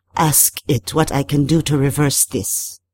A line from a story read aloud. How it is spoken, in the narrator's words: she said